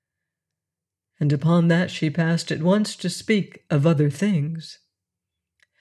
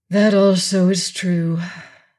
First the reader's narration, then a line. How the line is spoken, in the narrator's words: said, sighing heavily